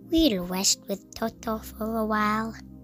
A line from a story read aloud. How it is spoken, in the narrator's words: she said